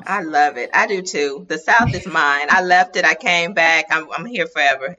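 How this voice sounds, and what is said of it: Mississippi Southern accent. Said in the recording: “You hear the Mississippi accent.”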